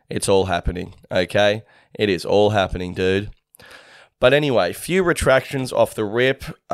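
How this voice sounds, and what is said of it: Deeper than usual voice. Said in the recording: “My voice is a little deeper this week.”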